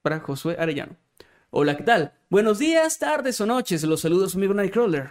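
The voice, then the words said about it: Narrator voice. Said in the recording (Spanish): “esto es con voz de narrador”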